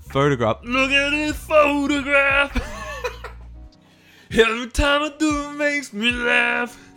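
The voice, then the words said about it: Sung impression of a rock singer. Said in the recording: “That's my Nickelback impersonation. I was doing a Creed impersonation in place of Nickelback.”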